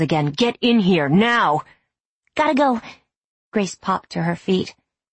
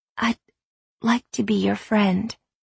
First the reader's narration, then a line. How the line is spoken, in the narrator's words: she said softly